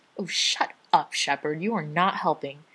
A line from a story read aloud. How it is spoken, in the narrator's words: Rodney snarls